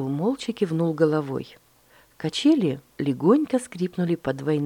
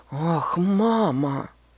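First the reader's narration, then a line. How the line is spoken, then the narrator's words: Groaned. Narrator (Russian): простонал он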